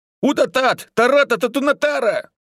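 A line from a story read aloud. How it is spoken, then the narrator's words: Frightened yell. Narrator (Russian): испуганно заорал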